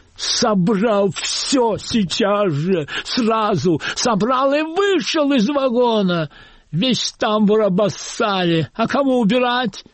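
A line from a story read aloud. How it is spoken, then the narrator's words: Frantic screaming. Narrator (Russian): истошно вопит проводница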